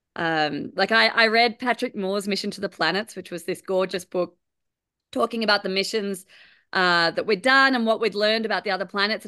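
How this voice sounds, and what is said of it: Australian accent. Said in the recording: “since I grew up in Australia, as people might gather from my accent”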